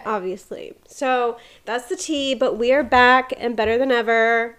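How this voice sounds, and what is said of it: Sniffly, congested voice. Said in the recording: “I am still sniffly ... I'm still a little sniffly. So, sorry my voice sounds a little crazy.”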